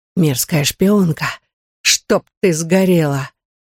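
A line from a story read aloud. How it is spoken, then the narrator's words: Vicious whisper. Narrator (Russian): прошептал он злобно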